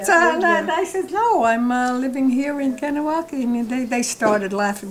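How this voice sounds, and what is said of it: New York Brooklyn accent. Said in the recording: “You're either from New York or you're from Brooklyn... it's just the accent. I can't get rid of it.”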